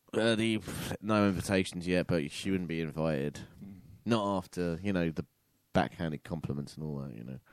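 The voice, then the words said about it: Cold-affected voice with vocal fry. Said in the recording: “my new cold voice ... It's a lot of vocal frying”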